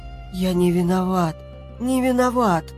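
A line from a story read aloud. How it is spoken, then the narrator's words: Choked hoarse wheeze. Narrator (Russian): прохрипел он сдавленным горлом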